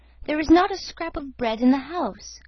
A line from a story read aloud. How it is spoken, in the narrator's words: quavered the old man